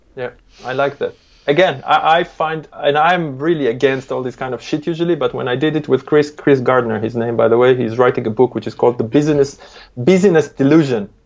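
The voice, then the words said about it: Non-native English accent. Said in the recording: “Sorry, my accent”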